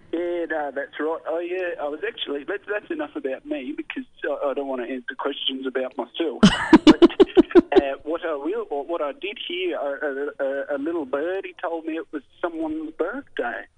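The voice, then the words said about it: Exaggerated put-on Australian accent. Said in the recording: “Am I picking up an accent there? ... It sounds like he's an Australian trying to be a worse Australian.”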